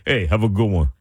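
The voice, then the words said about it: Put-on New Jersey accent, dropped D. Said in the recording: “The Jersey accent will come in with that too... you won't even say the D of the good”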